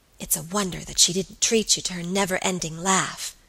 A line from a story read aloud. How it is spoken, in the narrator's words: whispered Alicia